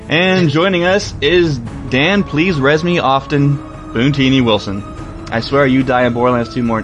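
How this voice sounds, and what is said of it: Usual voice. Nothing is said of it.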